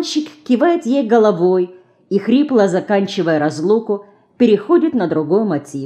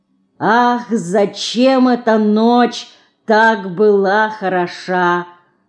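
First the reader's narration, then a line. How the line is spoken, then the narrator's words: Slow singing. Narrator (Russian): Медленно запевает она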